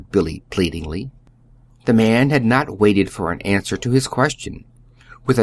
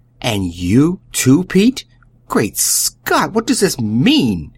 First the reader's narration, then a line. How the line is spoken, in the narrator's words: he exploded angrily